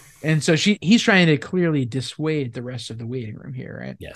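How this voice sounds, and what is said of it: Usual voice. Nothing is said of it.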